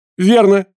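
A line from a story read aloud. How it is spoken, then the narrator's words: Exclaiming. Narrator (Russian): воскликнул ученый-географ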